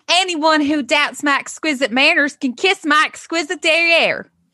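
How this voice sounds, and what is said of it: Put-on Southern accent. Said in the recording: “I guess I should use like a Southern accent... I can't talk like Britney from”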